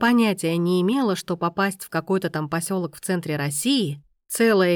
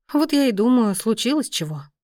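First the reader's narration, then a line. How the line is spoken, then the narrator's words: Sighing. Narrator (Russian): вздохнула Глаша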